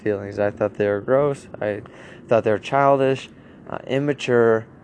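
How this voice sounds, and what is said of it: Tired, strained voice. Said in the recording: “I think I'm losing my voice. I'm super tired.”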